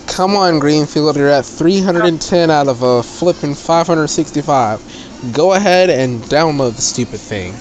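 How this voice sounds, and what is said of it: Southern US accent. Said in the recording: “I'm sorry about the southern accent ... I'm a southerner”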